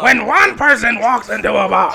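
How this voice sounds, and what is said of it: Loud Gilbert Gottfried impression. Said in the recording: “Did I do Gilbert Gottfried? ... Was that a little too loud? I think that was a little too loud. ... That hurts your throat”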